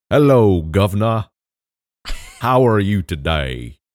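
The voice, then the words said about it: Put-on southern British accent. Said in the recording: “here's my British accent ... It's from the southern part of Britain.”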